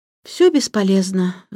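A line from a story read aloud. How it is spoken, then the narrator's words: Sighing. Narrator (Russian): вздохнула Антея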